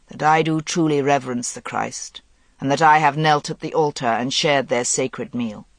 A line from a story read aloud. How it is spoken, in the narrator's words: said the Merlin, his voice deep and resonant in the silence